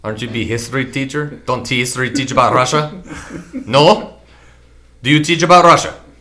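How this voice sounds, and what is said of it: Put-on Russian accent. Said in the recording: “Accent. ... It is Russian.”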